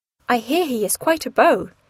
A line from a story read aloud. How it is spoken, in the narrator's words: said Anne